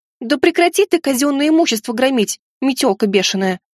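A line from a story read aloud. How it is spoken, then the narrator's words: Yelling. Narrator (Russian): заорала Тири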